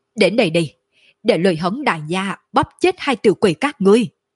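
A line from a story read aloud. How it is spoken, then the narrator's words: Fierce loud roar. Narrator (Vietnamese): Lôi Hống sắc mặt biến đổi, trên mặt lộ ra vẻ dữ tợn, trong mắt lộ ra chiến ý đậm đặc, cao giọng gào thét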